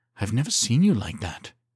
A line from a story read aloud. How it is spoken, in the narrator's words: she breathed